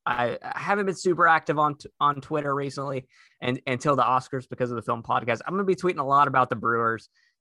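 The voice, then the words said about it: Man with southern American accent. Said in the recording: “a man with a southern accent”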